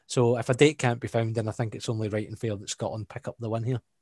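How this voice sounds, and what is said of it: Scottish accent. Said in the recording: “With our Scottish accent?”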